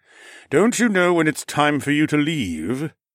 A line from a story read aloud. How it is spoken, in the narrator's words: Mech sighed impatiently